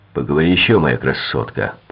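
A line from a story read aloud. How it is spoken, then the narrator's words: Grumbling. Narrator (Russian): проворчал Дейль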